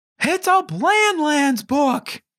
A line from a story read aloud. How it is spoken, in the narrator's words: She squealed